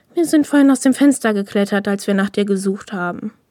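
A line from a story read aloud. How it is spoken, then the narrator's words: Sighing explanation. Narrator (German): erklärte und seufzte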